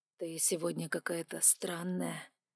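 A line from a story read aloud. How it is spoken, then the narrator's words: Quiet. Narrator (Russian): тихо сказал Вайлар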